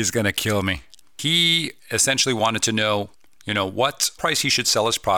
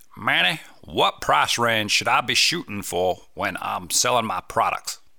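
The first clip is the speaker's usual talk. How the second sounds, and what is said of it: Put-on accent. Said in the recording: “he didn't actually ask me in that accent.”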